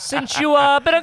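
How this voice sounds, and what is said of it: Bad put-on Italian accent singing. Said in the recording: “singing, you know, Kelly Clarkson, Since You've Been Gone in like a horrible Italian accent.”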